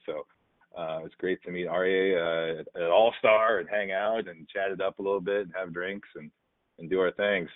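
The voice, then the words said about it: Smooth podcast voice. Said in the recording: “you have the smoothest podcast voice that I always dreamed to attain”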